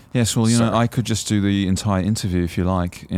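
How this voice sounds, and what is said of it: Exaggerated put-on Australian accent. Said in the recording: “Your Australian accent comes with a bit of like ... This look like you're ... just ... Fucking with everyone. ... it's probably the most insulting thing to Australians.”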